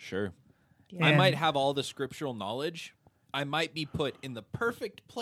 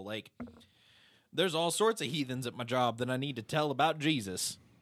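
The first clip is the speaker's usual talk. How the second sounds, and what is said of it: Put-on Southern American accent. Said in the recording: “Why did I go into a southern accent there?”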